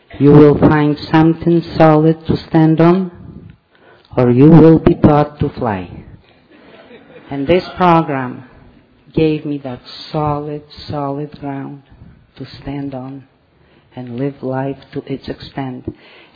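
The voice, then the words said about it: Strong foreign accent. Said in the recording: “you wouldn't be able probably to understand me with that accent”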